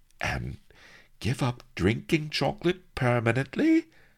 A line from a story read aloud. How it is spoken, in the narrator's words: cried round-eyed